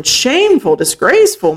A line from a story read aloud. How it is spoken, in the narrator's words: Moncaius cried